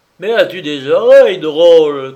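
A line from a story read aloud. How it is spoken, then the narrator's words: Ringing shout. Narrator (French): cria-t-il d'une voix vibrante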